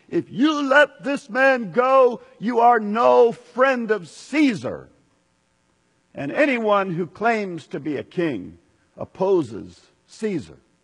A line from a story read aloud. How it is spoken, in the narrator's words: the Jewish leaders kept shouting